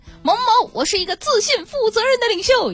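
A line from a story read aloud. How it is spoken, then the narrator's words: Shouting. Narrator (Chinese): 大喊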